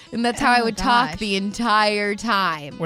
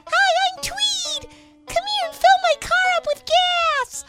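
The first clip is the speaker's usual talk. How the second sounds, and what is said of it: Very high-pitched squeaky voice. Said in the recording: “I talked in a very high-pitched, squeaky voice.”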